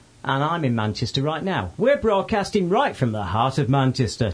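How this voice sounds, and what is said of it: Put-on radio presenter voice. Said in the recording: “That was my radio voice.”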